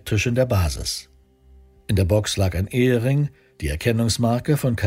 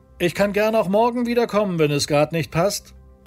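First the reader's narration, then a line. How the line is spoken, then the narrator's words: Distant call. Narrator (German): rief er aus der Entfernung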